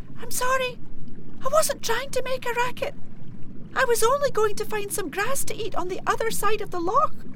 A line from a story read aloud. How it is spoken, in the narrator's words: Quaking in her hoofs, Wee Hielan Khu managed to squeak